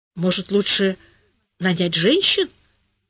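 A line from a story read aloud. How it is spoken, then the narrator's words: Timid suggestion. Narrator (Russian): робко предложила я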